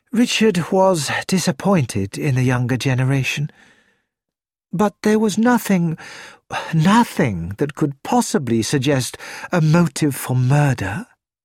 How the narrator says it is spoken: Helen said with a sigh

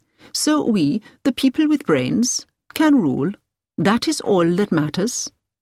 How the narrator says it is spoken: he said gently

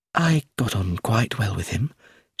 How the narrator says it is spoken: she said quietly

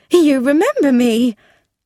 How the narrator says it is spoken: She said in an excited voice

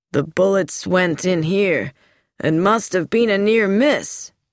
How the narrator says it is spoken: he said grimly

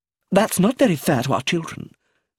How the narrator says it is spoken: said Magda quickly

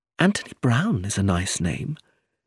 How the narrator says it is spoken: she said softly

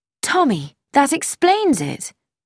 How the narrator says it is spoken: cried

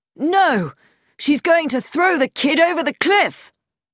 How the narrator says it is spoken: Haydock exclaimed

